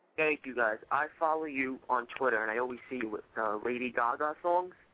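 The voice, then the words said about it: Noticeable regional accent. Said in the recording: “I love your accent.”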